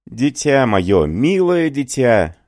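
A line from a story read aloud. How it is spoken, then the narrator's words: Exclamation. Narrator (Russian): воскликнул Галар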